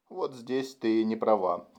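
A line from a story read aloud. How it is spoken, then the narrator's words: Quiet, frowning. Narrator (Russian): тихо произнес, нахмурившись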